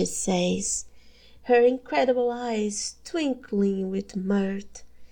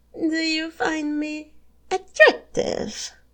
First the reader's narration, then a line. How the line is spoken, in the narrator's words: You laugh uneasily